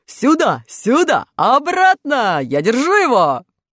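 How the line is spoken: Shouting. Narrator (Russian): железный дровосек закричал мышам

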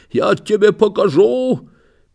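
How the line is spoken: Hoarse wheezing. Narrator (Russian): все свое хрипит

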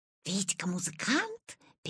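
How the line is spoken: Classmates whispering among themselves. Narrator (Russian): перешептывались Витины одноклассники

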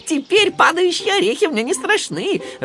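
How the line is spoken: Burst out laughing. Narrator (Russian): расхохотался он

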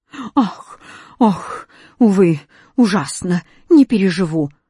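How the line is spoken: Moaning. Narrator (Russian): стонал восклицательный

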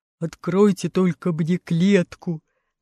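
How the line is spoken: Lion's growl. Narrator (Russian): зарычал лев

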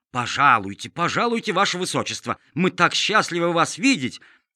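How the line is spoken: Eager, fawning exclamation. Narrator (Russian): воскликнул сеньор Петрушка

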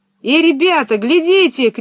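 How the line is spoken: Shout. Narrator (Russian): крикнул Пеппи

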